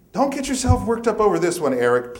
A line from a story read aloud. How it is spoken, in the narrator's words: Karen pleaded